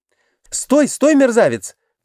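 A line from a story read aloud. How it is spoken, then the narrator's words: Interrupted shout. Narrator (Russian): крикнула было Глафира Семеновна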